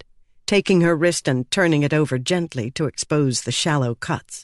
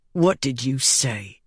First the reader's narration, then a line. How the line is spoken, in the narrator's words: growled